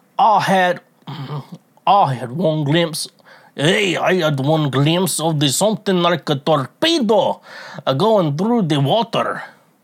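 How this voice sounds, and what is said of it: Unidentifiable put-on accent. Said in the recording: “I don't even know what accent that is.”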